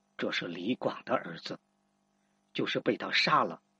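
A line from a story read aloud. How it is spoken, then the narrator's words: Soft whisper in ear. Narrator (Chinese): 他在平阳公主耳边轻声说道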